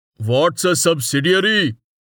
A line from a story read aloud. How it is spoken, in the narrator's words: Someone yelled